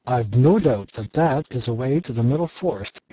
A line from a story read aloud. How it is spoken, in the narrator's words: exclaimed Shaggy